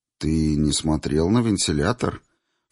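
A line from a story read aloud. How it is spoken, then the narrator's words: Insinuating inquiry. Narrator (Russian): вкрадчиво поинтересовалась Зинаида Аркадьевна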